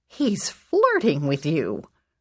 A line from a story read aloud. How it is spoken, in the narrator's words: my grandmother exclaimed